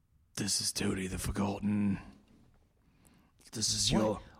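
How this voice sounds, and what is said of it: Deep put-on British accent. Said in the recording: “this deep and British accent”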